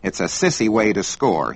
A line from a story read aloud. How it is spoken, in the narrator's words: snort